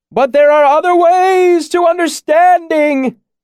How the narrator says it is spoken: He shouted, laughing like a child

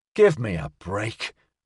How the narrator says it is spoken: Orga snapped

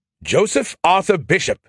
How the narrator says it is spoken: Skippy fairly shouted

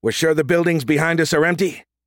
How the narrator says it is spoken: Reach shouted above the gunfire of the Rangers

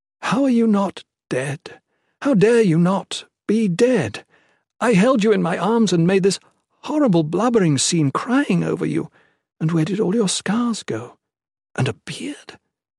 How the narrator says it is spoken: Jen laughed

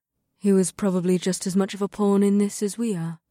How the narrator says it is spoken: Sid said in a glum voice

